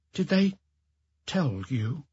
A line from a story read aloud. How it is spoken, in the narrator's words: she murmured